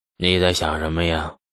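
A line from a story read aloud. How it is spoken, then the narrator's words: Sighing question. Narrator (Chinese): 这牛进达摇头一叹，就问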